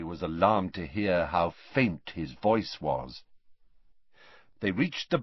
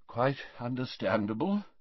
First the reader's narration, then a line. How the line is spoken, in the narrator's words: murmured Dumbledore